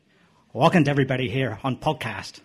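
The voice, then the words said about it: Put-on Irish accent. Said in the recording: “in my famous Irish accent”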